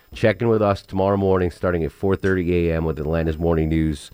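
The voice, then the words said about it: Hoarse, sick, failing voice. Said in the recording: “I thought I was over my illness, but I'm losing my voice... I'm barely getting through this”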